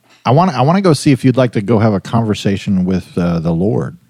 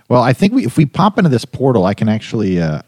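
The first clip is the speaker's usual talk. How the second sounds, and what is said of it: Voice cracks briefly. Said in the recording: “my voice got a little cracked there for a second”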